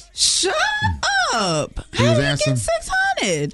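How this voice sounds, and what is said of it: High-pitched surprised voice. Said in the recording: “how high-pitched my voice got? ... I did. It's still there, too.”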